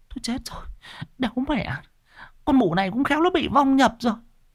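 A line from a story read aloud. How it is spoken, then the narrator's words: Trembling women's voices. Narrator (Vietnamese): Mấy bà hàng xóm run run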